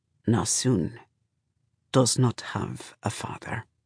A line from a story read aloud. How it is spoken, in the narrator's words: Shafa says softly